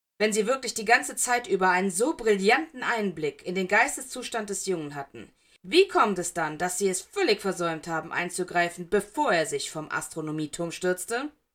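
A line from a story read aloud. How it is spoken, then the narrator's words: Brusque. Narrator (German): sagte Hut schroff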